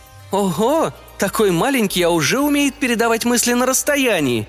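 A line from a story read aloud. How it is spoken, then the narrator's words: Exclaimed. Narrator (Russian): воскликнула она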